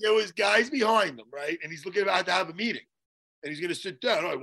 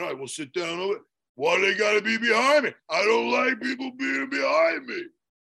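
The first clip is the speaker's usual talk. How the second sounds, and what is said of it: Imitates another person's voice. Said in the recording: “You like my impersonation? ... It's not your impression. ... that was Rocky”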